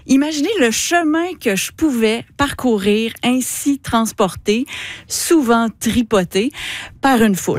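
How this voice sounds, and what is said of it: Quebec French accent. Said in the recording (French): “mon accent de Québec”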